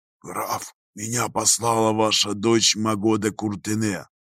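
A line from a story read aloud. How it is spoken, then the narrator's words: Whispered reply. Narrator (Russian): Таким же шепотом ответил господин Дрон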